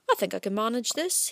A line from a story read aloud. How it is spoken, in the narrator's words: murmured cheerfully